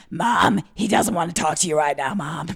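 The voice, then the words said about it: Imitates another person's voice. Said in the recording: “I've smoked a few cigarettes recently, and so I feel like my Harvey Firestein impression is just through the roof.”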